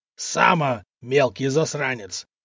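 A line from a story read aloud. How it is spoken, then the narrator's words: Furious growl. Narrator (Russian): прорычал разъяренный купец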